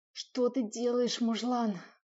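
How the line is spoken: Screaming, choking on moans. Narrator (Russian): кричала, захлебываясь собственными стонами

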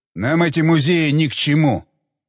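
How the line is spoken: Grumbling, male. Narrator (Russian): проворчал он

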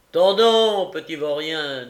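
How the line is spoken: Thunderous voice. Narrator (French): dit Fang d'une voix de tonnerre

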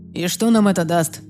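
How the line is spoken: Dismissive snort. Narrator (Russian): пренебрежительно хмыкнул Райан

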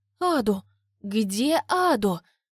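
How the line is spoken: Muffled moan. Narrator (Russian): Простонала Диля, зажимая рот ладонью

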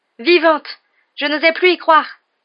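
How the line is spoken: Exclaiming man. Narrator (French): s'exclama-t-il

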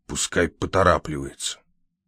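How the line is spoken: Grumbling mutter. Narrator (Russian): буркнул Лакандер

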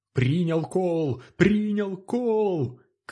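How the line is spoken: Shouting. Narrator (Russian): кричал он

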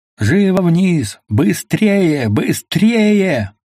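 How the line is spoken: Loud shout. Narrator (Russian): громко закричал

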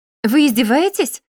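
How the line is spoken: Unrestrained exclamation. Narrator (Russian): воскликнула, не сдержавшись

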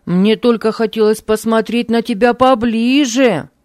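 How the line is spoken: Shout after someone. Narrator (Russian): крикнул Хармий ей вслед

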